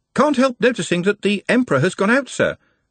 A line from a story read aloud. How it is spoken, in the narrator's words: said the voice from below cheerfully